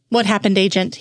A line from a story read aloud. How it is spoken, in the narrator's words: he asked